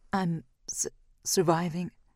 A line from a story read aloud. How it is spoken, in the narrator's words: I sputter, forcing back the croak in my throat